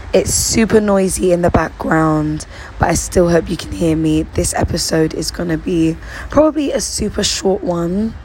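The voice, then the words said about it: Lost, hoarse voice. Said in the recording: “I've lost my voice, as you can hear.”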